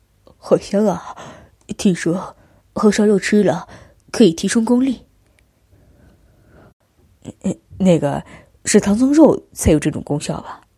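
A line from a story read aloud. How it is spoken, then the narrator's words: Sighing. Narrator (Chinese): 他叹道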